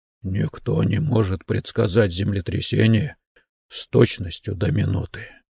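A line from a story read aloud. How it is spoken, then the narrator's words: Barely audible. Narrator (Russian): едва слышно произнес Фейго, ошеломленно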